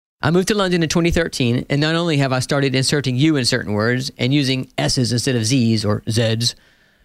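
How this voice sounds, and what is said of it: American accent. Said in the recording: “if you can't tell by my accent by now, I'm an American, or American as I like to say.”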